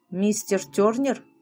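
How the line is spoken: Old man's hoarse grating voice. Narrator (Russian): Хриплый голос старика напоминал скрежет ржавых петель

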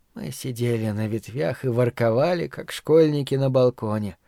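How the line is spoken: Sleepy. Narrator (Russian): сонно говорила она

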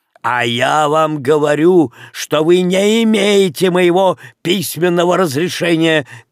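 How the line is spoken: Shouted. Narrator (Russian): крикнул комиссар

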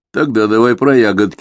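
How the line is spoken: Gloomy request. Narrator (Russian): мрачно просил Эдгар

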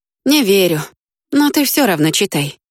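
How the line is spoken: Sighing. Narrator (Russian): вздохнул Вик

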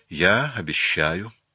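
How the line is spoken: Very tender. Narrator (Russian): сказала она очень ласково

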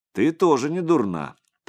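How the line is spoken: Joking. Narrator (Russian): таким же шутливым тоном отозвался Андрей

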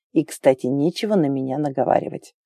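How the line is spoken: Grumble. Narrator (Russian): Пробурчал

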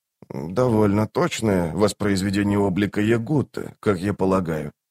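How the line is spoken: Soft speech. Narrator (Russian): мягко проговорил он

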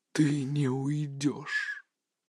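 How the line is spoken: Sand suddenly whispering. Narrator (Russian): песок вокруг вдруг прошептал

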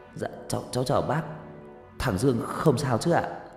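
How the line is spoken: Stammering. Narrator (Vietnamese): lắp bắp

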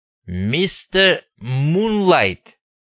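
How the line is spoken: Drawn-out. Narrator (Russian): протянул Мун

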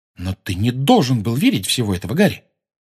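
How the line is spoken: Sudden sharp. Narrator (Russian): Потом вдруг резко сказала

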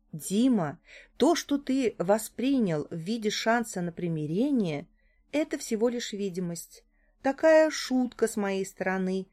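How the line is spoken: Completely calm tone. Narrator (Russian): проговорила я совершенно спокойным тоном

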